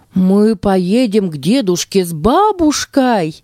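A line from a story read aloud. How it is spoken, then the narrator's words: Exclaimed. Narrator (Russian): воскликнул Тима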